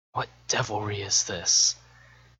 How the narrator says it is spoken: whispers to himself

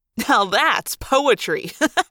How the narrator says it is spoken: Marco said, laughing

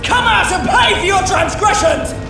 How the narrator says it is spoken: Ira shouts

